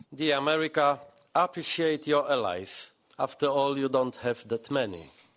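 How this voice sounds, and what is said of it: Thick accent, still understandable. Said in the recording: “He's got a thick accent, but it's understandable.”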